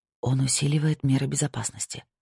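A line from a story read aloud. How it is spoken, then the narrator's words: Whispered. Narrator (Russian): прошептала им Кора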